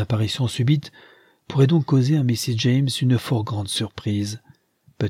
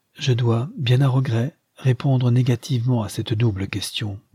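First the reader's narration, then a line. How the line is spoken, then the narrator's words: Plain. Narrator (French): dit Leonard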